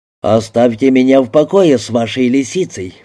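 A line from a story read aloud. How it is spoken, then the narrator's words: Grumbling. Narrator (Russian): проворчал Томми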